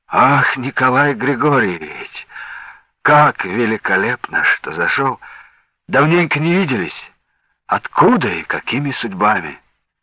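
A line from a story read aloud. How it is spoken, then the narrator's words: Hoarse, cold-roughened exclamation. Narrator (Russian): хрипловатым простуженным голосом воскликнул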